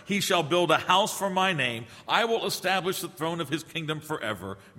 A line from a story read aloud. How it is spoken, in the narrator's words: God said